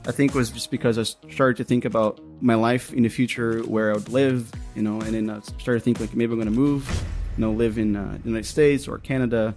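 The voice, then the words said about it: Native-like English accent. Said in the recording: “he already had a native-like accent”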